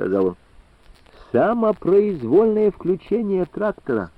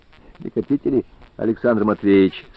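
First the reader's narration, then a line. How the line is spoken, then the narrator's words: Calm question. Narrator (Russian): спокойно спросил Сухов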